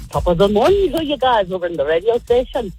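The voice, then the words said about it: Put-on Irish accent. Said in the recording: “My favorite accent is probably an Irish one. I can do an Irish one, too. ... That was so good.”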